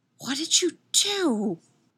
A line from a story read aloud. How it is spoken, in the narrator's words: Ray hisses at the owl, feeling horribly betrayed